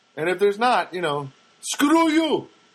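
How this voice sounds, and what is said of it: Put-on foreign accent. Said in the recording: “I don't know why I have to do a foreign accent ... But it sounds better to do it like that way.”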